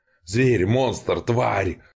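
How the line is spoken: Terrified crowd screaming. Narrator (Russian): в ужасе кричали люди

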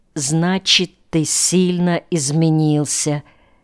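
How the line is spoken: Quiet. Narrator (Russian): тихо сказала

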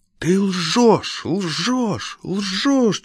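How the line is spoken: Furious, almost sobbing. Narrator (Russian): чуть не рыдая в бешенстве повторял Рультаби

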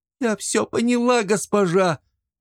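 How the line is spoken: Sobbing, choked girl's answer. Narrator (Russian): рыдая и глотая слова и слезы, с трудом ответила девушка

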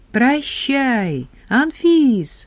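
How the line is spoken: Shouting. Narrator (Russian): крикнул Коля

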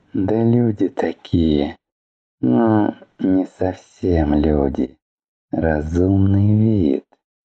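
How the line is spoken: Calm coaxing. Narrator (Russian): увещевал спокойно

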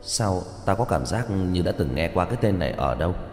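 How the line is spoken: Pensive muttering. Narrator (Vietnamese): Tiêu Dật Vân lâm vào suy tư, ngay sau đó lẩm bẩm

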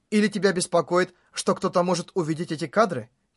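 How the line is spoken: Tense voice. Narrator (Russian): напряженным голосом ответил

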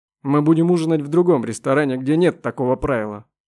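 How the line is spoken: Loud. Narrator (Russian): громко сказал он

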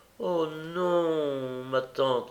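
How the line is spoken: Pleading. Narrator (French): dit Rose d'un ton suppliant

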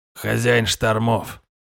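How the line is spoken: Amused snort. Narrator (Russian): хмыкнул Сирген

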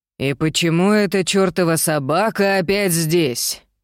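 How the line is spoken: Barking snap. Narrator (Russian): рявкнула она

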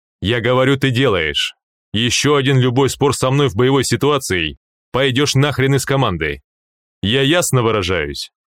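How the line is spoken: Barking. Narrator (Russian): рявкнул Тапок

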